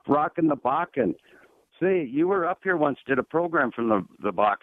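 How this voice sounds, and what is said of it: Irish-sounding accent. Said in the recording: “You sound like you got an Irish accent.”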